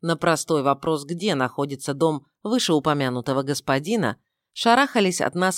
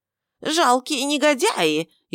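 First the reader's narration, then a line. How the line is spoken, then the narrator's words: Shrill shriek. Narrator (Russian): истошно завизжал он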